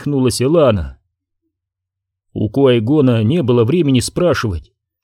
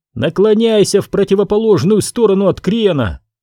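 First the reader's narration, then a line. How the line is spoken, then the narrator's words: Shout. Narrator (Russian): прокричал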